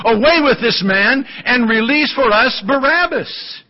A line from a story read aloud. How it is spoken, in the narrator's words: they cried out altogether, saying